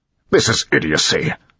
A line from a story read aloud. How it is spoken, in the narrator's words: Straff snapped